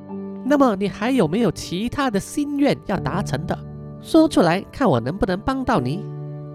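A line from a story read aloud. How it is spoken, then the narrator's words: Soft whisper. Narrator (Chinese): 小声的跟他说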